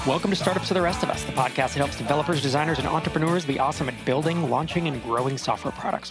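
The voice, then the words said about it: Announcer voiceover voice. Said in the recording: “How'd you like my announcer voice today? ... A voiceover guy. ... I was trying not to sound like a radio DJ.”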